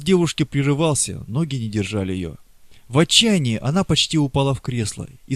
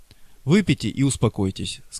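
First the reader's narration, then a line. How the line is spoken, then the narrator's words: Gentle yet stern. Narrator (Russian): сказал он нежно, но в то же время строго, как ребенку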